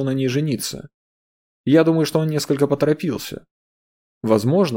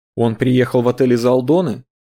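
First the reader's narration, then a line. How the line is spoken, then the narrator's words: Plain. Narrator (Russian): спросила Сабина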